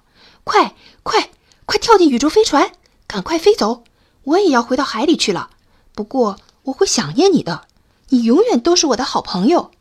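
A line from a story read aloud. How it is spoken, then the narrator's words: Little crab shouting. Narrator (Chinese): 小螃蟹大叫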